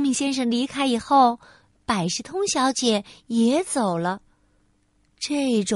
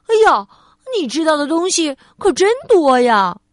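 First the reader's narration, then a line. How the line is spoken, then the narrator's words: Loud shout. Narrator (Chinese): 聪明先生大喊道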